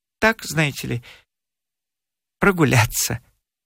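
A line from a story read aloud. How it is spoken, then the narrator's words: Quiet, smiling. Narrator (Russian): тихо улыбнулся и сказал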